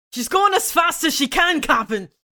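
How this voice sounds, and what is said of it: Bad put-on Scottish accent. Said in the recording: “I have a terrible sort of Scottish accent.”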